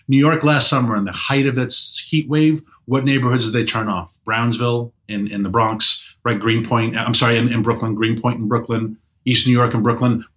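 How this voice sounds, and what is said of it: Slight New York accent. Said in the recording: “I'm originally from New York City. You may detect the accent a little bit.”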